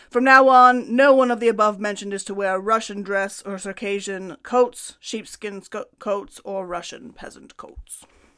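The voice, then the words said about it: Put-on Russian accent. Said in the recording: “That was a good impression. ... That's my Russian accent.”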